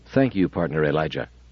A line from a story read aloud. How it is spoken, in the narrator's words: said Daniil gravely